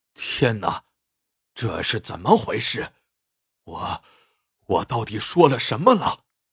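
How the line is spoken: Dazed muttering. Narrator (Chinese): 彭三大王迷瞪半天，喃喃自语

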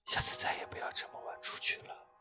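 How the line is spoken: Nervous low voice. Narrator (Chinese): 脖颈就已冒出汗水，低声说道

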